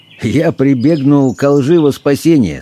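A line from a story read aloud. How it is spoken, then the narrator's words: Laughing confession. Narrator (Russian): смеясь признался доктор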